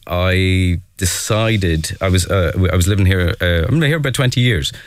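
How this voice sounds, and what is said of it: Irish Dundalk accent. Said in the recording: “I am not from the area, as you can hear from my voice, from Dundalk.”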